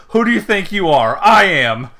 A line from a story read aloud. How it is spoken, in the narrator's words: Pat McAfee yells